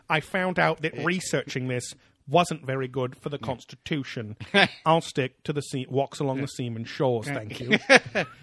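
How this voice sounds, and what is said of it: Put-on British accent. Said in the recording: “the British Ministry of Defense guy. ... I don't have a good accent for him.”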